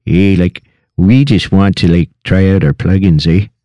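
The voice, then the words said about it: Put-on Canadian accent. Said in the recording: “everybody has to speak in a Canadian accent for one full answer”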